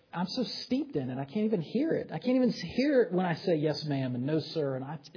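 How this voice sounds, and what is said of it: Southern American accent. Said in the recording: “I'm a Southern boy ... with my accent being what it is ... I didn't think I had that much of a Southern accent, but sometimes I do”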